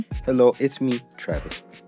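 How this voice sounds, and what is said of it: Put-on accent. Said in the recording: “Because you did an accent.”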